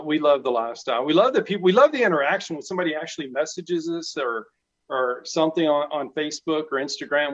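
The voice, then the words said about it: South Central Texas accent. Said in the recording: “that accent is real. He lives in Texas ... South Central Texas, and you know, half the words no one understands”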